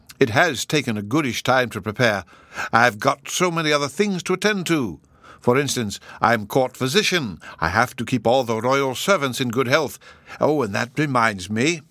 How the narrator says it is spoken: he cried, in a great hurry

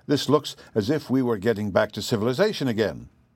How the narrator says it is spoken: exclaimed

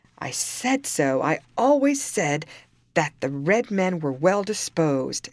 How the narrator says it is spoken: exclaimed the judge

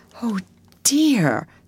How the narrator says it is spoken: sighed Meg

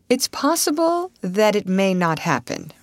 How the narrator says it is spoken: Russ answered slowly, and his words seemed rather ominous

